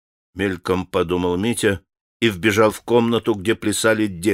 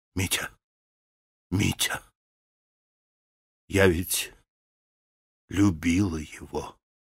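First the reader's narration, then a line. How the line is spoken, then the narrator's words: Whisper. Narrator (Russian): начала она ему шепотом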